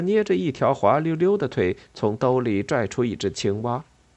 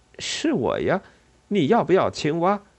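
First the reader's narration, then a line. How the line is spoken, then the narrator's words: Laughing. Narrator (Chinese): 西蒙笑了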